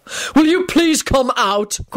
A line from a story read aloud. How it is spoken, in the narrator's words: Quentin snapped